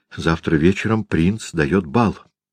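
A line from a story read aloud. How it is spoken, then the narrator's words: Young man whispering. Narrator (Russian): шептал молодой студент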